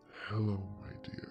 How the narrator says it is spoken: said in a guttural voice

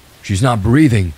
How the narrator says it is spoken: the old man cried

